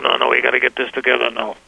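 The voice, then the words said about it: Imitates another person's voice. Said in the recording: “that's my best Joe impression.”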